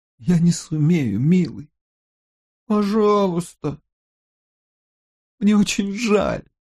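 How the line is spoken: Holding back sobs. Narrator (Russian): сказала она, едва сдерживая рыдание

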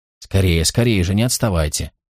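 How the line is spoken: Insistent mother urging. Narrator (Russian): Мать твердила им

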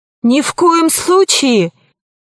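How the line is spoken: Neanderthal exclaiming. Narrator (Russian): воскликнул второй неандерталец

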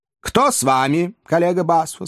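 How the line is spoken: Plain question. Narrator (Russian): спросил судья

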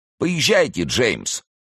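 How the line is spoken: Shouting. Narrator (Russian): крикнула она кучеру

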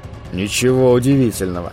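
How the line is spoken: Gloomy thought. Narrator (Russian): мрачно подумал он

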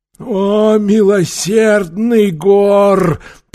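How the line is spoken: Moaning. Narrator (Russian): простонал Таита

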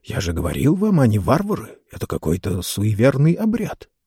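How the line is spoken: Whisper. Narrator (Russian): один версгорец прошептал

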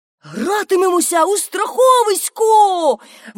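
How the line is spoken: Joyful exclamation. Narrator (Ukrainian): вигукнув і радісно заплескав у долоні

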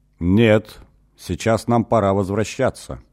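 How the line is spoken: Dry. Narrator (Russian): сухо сказал Эгин

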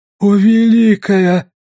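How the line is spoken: Strained, fearful wheeze. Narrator (Russian): с трудом просипела Нарита, боясь потерять контроль над мочевым пузырем

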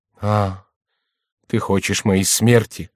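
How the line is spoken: Gloomy voice. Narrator (Russian): произнесла Екатерина мрачным голосом

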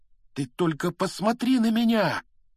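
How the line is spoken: Exclaim. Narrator (Russian): воскликнул он

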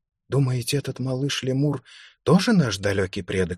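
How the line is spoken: Whispered question. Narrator (Russian): спросила шепотом Лукреция

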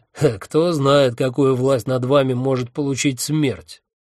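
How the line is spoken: Mocking question. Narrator (Russian): насмешливо спросил я

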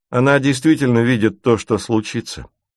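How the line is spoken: Calm, unflustered. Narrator (Russian): спокойно говорит Ким, не давая сбить себя с толку

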